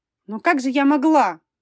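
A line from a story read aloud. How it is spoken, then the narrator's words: Babbling. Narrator (Russian): лепетала Виктория Валентиновна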